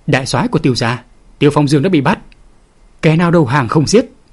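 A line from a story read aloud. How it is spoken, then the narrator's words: Roar. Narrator (Vietnamese): Tiếng gầm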